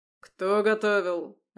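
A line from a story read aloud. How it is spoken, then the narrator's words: Barked. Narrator (Russian): рявкнул Клюев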